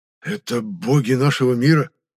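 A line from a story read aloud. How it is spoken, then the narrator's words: Hoarse breathless exhale. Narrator (Russian): хрипло выдохнул ловиец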